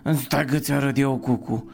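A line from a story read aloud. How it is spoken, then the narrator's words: Bold boy shouting. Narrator (Romanian): strigă cel mai îndrăzneț dintre ștrengari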